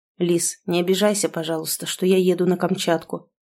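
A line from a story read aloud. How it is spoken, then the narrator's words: Hoarse whisper. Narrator (Russian): шепчет Сашка хрипло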